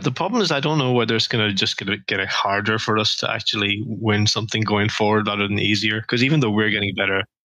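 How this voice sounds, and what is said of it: Irish accent. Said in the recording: “you have an accent different than mine. Where are you from? ... I'm from Ireland.”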